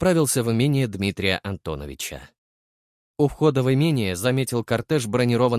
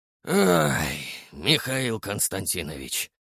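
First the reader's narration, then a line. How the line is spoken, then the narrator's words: Heavy sigh. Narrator (Russian): тяжело вздохнул Титов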